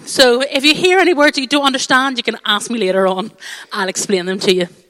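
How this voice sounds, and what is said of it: Strong Irish accent. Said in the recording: “my very strong accent, as I have just spent a week at home in Ireland ... my accent has got terribly much stronger”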